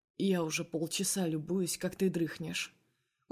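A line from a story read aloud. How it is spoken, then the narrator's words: Quiet smirking. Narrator (Russian): усмехается тихо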